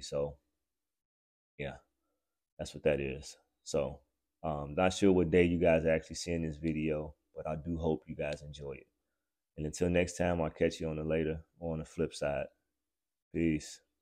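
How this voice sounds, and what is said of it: Slightly raspy voice. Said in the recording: “I was a little under the weather ... I was fighting a vicious cold ... as you hear, my voice is a little raspy”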